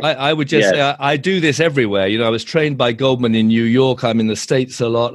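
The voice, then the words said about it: British English accent. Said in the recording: “you can tell by the accent, I'm based in the UK”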